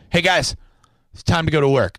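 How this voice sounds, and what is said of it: Calm, even-keeled delivery. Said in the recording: “Say it in an even keel voice.”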